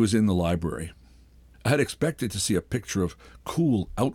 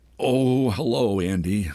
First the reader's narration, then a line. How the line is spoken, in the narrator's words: said brokenly